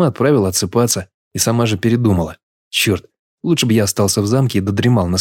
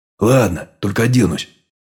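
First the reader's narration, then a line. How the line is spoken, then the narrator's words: Displeased grumble. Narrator (Russian): недовольно проворчал я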